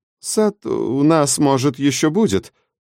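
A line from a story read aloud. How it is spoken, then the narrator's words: Mumbling. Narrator (Russian): промямлил он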